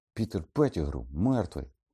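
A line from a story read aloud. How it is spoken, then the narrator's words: Exclaimed. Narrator (Ukrainian): вигукнув Гаррі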